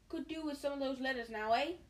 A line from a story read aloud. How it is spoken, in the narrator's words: He said cheerfully